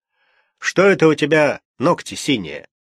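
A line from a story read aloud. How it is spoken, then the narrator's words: Stern father's question. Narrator (Russian): Папа строго спрашивал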